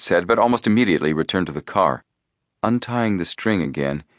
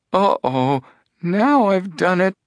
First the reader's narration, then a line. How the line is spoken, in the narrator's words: he moaned